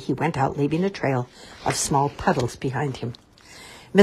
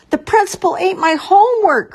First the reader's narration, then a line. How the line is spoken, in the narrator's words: cried Nancy